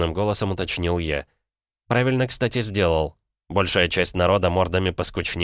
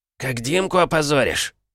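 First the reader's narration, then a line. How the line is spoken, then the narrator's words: Angry barking. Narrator (Russian): наконец злобно рявкнул он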